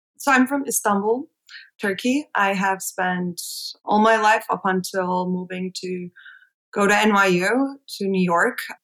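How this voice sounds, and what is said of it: Slight non-American accent. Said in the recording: “your slight accent that you are not from America”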